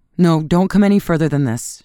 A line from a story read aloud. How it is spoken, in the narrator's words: she cried